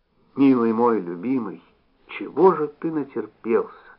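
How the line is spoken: Whisper. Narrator (Russian): шепотом сказала Зося

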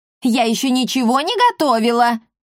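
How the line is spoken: Housekeeper shouting back. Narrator (Russian): крикнула в ответ домоправительница

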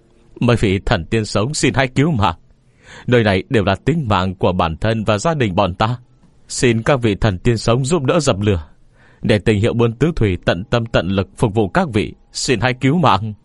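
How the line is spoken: Loud shout. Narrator (Vietnamese): vừa hét lớn

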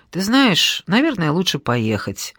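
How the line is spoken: Calm. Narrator (Russian): спокойно сказал Пашка

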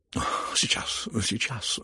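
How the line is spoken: Receding mutter. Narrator (Russian): бормотал генерал, выходя из комнаты

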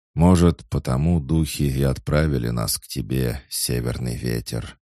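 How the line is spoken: Heavy sigh, chief. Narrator (Russian): тяжело вздохнул вождь

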